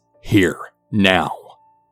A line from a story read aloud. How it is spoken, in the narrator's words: mother growls